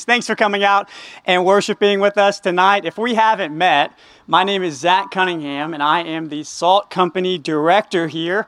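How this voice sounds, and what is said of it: Texas accent. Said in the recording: “my wife and I met in Texas. If you can't tell because of the accent”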